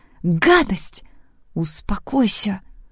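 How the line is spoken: Hissed. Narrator (Russian): прошипела Лекси

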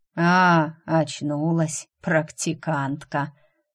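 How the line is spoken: Drawling elderly voice. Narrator (Russian): протянул старческий голос

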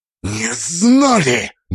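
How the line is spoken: Icy hiss. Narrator (Russian): Мастер из-под капюшона вырвалось ледяное шипение

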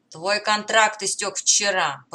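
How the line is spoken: Growled. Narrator (Russian): прорычал торговец

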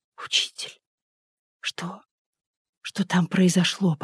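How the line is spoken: Young woman, near whisper. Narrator (Russian): почти шепотом проговорила девушка

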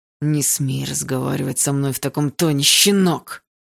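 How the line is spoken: Old man hissing. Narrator (Russian): прошипел старик

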